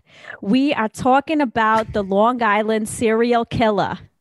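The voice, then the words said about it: Put-on Long Island accent, sounding Boston. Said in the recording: “I feel like I should do this in a Long Island accent. ... No, that was kind of Boston.”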